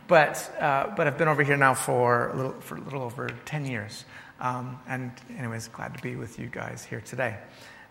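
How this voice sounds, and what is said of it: Faint American accent. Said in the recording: “Originally from America, as you can probably hear in my voice a little bit. It's muddied now.”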